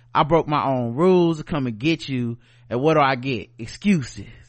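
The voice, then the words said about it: Whispery Southern accent. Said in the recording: “whispery Southern accent”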